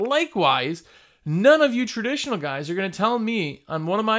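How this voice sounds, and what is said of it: Usual voice. Nothing is said of it.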